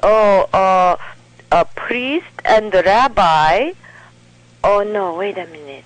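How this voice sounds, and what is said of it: Imitating mother's accented speech. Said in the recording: “she has an accent”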